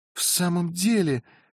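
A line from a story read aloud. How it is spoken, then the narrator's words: Exclamation. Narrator (Russian): воскликнула Розамонда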